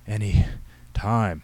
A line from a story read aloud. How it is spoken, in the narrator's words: O'Donnell panted